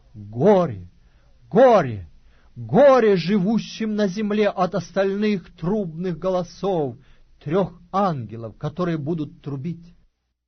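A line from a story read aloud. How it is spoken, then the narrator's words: Loud angelic proclamation. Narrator (Russian): одного ангела, летящего посреди неба и говорящего громким голосом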